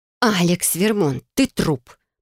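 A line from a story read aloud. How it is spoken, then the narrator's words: Controlled hiss. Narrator (Russian): прошипела, старательно контролируя голос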